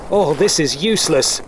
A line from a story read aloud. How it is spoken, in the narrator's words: yelled Ben as the wind did howl